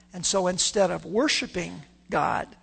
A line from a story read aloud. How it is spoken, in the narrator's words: they murmur